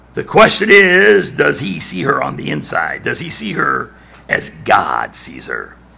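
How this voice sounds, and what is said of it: Raspy voice. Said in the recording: “my voice wasn't so raspy,”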